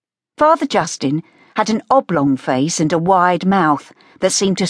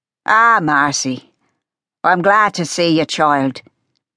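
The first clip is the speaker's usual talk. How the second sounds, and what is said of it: Gravelly Irish brogue character voice. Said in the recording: “His Irish brogue grated from his throat, as though he were forcing his words over a layer of gravel.”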